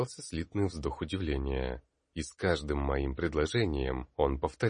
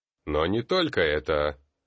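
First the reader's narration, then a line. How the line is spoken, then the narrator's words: Stern. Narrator (Russian): строго произнес я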